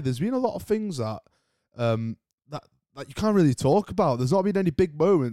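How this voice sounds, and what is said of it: British accent. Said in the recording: “I'm British myself, as you probably can tell by the accent”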